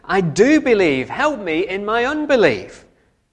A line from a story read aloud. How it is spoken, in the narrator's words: Immediately the boy's father exclaimed